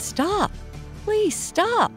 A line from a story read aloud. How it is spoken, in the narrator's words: at the top of his lungs